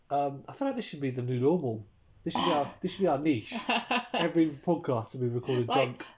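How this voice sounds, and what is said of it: Low, blocked-nose congested voice. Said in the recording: “my voice is a bit low, it's because I've got tissue stuff up my nose. I have the gay fever ... The hay fever ... has 2 snot rags jammed up his nostrils.”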